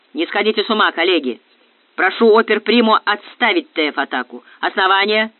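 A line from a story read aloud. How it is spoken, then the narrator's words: Booming thunderous voice. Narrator (Russian): прогремел Железовский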